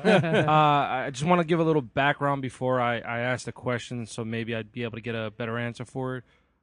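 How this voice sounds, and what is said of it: New Jersey accent. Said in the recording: “We had no idea you were from Jersey. ... I was kidding based on the accent. ... More the accent.”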